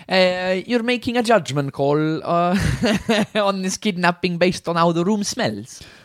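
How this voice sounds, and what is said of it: Stereotypical Italian accent. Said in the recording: “This stereotypical Italian accent is... it's great.”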